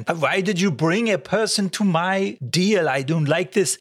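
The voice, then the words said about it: Campy put-on German accent. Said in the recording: “doing this campy German accent.”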